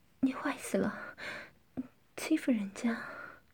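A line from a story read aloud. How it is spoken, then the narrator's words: Breathless. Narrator (Chinese): 夏丽金气喘吁吁地说道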